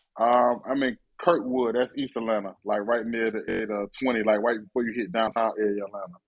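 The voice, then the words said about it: Atlanta accent. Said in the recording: “why you got a ATL accent sound like all of a sudden?”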